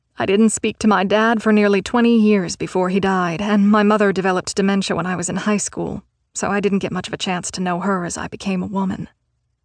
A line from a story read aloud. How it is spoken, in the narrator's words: She laughed a little and continued